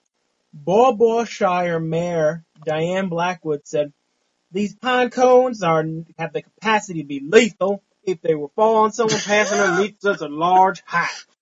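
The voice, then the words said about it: Poor put-on southern accent. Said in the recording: “you did a southern accent?... That was an interesting dialect... That's fucking terrible.”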